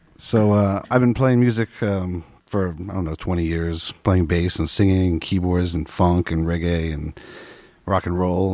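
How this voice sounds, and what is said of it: Radio voice. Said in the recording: “God, I love that voice. You got the radio voice.”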